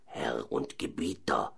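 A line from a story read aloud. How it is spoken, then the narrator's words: Soft whisper. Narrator (German): flüsterte er leise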